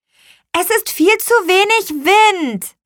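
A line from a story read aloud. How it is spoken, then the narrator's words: Calling out. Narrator (German): rief Lea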